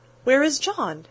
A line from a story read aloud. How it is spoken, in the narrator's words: asked Meg anxiously